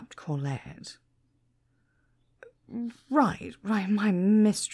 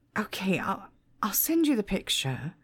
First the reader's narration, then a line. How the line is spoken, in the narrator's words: sighed Bob